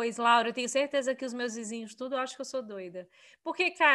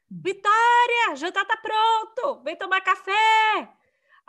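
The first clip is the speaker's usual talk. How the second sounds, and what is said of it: Shouting, yelling loudly. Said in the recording (Portuguese): “você grita. Claro que eu grito ... não grita! Berrando.”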